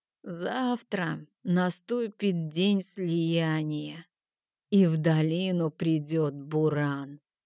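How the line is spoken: Quavering old woman's voice. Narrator (Russian): дребезжащим голосом сказала старая Йена

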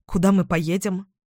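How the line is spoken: Plain. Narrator (Russian): спросила я

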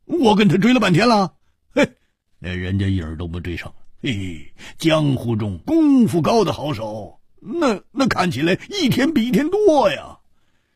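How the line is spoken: Wry, rueful smile. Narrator (Chinese): 胡铁花苦笑着说

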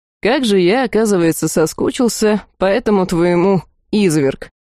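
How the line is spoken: Amused snort. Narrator (Russian): хмыкнул

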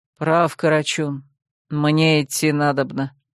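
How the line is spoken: Calm. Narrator (Russian): спокойно сказал он

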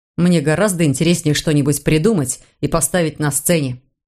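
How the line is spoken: Plain. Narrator (Russian): ответил Марк

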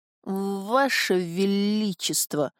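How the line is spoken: Stammering. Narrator (Russian): заикаясь, приговорил тот

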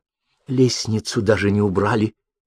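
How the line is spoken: Whisper. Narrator (Russian): шепнула Гортензия

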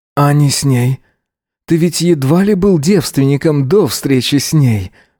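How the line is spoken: Breathed out. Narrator (Russian): выдохнул Эзра

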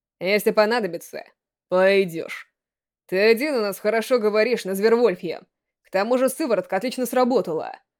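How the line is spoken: Cold reply. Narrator (Russian): холодно ответил Рико

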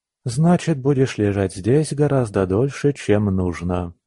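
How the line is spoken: Calm reply. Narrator (Russian): спокойно ответил Егор

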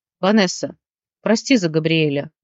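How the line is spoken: Gloomy. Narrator (Russian): мрачно проговорил Алекс

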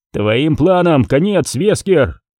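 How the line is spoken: Shouted. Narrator (Russian): крикнул Крис

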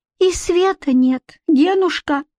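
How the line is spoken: Squeak. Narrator (Russian): пискнула баба Лена

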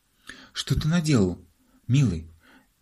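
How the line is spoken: Mother's faint babble. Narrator (Russian): пролепетала мама

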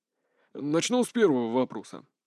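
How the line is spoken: Calm reply. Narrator (Russian): спокойно отвечал Морозов

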